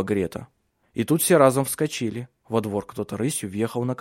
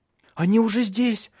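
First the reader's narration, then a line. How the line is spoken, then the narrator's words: Frightened scream. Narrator (Russian): испуганно закричала Мари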